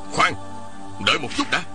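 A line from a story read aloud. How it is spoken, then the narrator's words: Hurried shout. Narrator (Vietnamese): Một tang vội kéo cậu bé lại, quát lên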